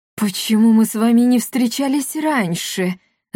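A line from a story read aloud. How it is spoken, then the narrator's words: Annoyed exclamation. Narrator (Russian): с досадой в голосе воскликнул Руфус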